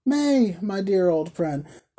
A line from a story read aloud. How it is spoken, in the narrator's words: cried Dot